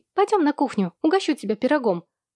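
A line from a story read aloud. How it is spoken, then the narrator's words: Ringing girlish voice. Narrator (Russian): звонким девчачьим голосом предложила Луи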